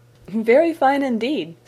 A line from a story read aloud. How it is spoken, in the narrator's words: said Miss Crawford, laughing